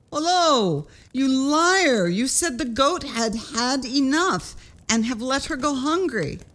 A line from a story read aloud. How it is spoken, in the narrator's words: cried the tailor, and said to the youth